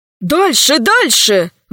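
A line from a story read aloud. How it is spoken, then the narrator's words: Exclaimed. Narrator (Russian): воскликнул капитан Полосков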